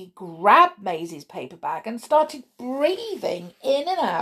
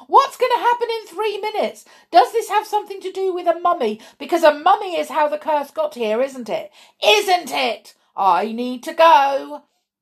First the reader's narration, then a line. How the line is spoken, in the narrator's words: Zach started freaking out and yelling